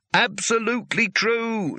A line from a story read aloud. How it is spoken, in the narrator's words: shouted Rincewind desperately